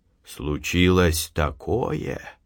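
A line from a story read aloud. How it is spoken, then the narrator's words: Old man's trembling voice. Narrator (Russian): дрогнувшим голосом заговорил дед Фишка, и вдруг рассердился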